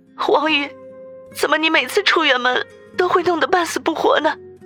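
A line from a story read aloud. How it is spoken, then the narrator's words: Choked with tears. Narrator (Chinese): 杨思思眼圈顿时就红了，哽咽的说道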